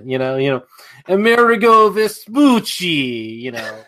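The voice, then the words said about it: Deliberately terrible Italian accent. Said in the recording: “do the like Brad Pitt in Inglourious Basterds thing ... the really terrible Italian accent”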